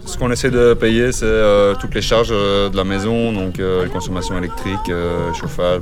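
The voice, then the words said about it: Belgian French accent, Brussels. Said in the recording (French): “je reconnais un accent euh, belge dans ta voix ... Belge de quelle région De Bruxelles”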